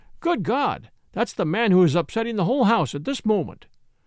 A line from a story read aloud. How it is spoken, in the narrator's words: exclaimed the landlord